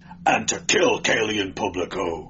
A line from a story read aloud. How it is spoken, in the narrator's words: exclaimed Dionys